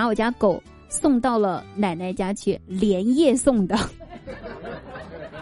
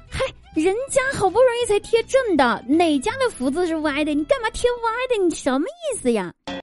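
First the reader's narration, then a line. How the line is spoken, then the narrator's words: Light laugh. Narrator (Chinese): 我叔笑了一下，说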